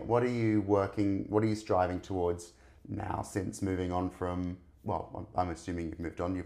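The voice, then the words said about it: Sore-throated, strained voice. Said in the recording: “I've got a sore throat. I'm not being able to get my words out properly today.”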